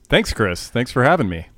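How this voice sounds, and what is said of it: Put-on radio announcer voice. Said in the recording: “put on the radio voice”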